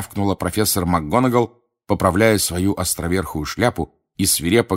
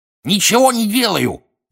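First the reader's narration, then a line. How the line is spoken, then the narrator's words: Cackling. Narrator (Russian): прокудахтал Пивз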